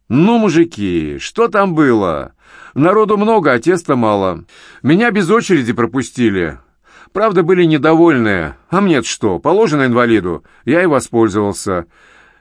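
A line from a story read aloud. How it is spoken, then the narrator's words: Cheerful. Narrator (Russian): весело завершил свой рассказ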